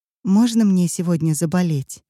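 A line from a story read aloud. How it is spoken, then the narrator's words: Trembling thin staccato voice. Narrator (Russian): Эти слова она произнесла дрожащим голосом, этаким тоненьким стаккато, когда между каждым звуком словно повисает крошечная воздушная пауза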